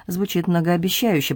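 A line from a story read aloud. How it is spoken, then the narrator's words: Mutter. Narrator (Russian): пробормотал он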